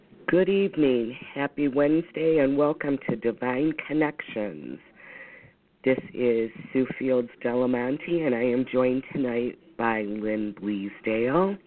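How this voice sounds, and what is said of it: Hoarse, froggy voice. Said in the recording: “Please excuse my voice. I am battling the flu, and I'm a little froggy”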